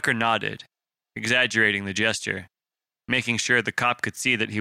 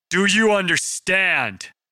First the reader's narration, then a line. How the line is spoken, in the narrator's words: Brendan had escalated to yelling now